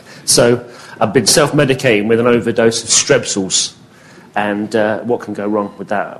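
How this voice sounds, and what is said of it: Hoarse, strained voice. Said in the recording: “my voice has been going all day. I woke up this morning and I couldn't actually say anything.”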